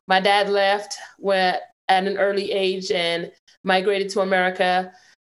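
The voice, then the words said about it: Noticeable Jamaican accent. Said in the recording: “as your listeners could probably tell, that I have an accent. I I was born and raised in Jamaica”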